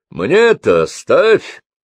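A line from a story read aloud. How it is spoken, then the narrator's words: Sudden booming voice. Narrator (Russian): вдруг прогремел голос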